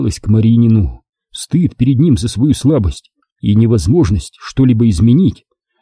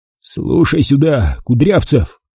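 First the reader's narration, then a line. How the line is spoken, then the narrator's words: Breaking hoarse whisper. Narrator (Russian): срывающийся хриплый шепот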